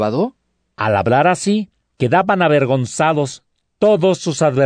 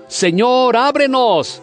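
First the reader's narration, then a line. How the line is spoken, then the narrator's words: Shouting. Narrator (Spanish): gritando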